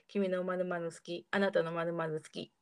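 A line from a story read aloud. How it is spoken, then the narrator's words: Plain. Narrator (Japanese): と言い合います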